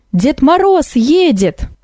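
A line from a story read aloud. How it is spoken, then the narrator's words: Sudden shout. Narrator (Russian): Вдруг она как крикнет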